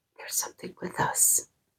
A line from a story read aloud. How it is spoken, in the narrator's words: whispered to him